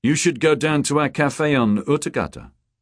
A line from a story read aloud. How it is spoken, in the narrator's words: John said